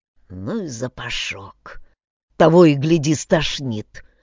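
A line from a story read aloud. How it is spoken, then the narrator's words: Hoarse wheeze. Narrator (Russian): прохрипел он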